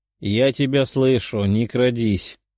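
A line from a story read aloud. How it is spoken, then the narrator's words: Grumbled. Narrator (Russian): проворчала Даша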